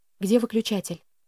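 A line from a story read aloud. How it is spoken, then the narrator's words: Whisper. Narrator (Russian): шепнула я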